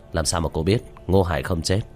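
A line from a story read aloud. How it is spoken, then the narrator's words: Tearful raised voice. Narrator (Vietnamese): Vu Mộng đôi mắt ngấn lệ, cao giọng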